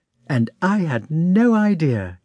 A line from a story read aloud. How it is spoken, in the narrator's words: exclaimed Princess Maria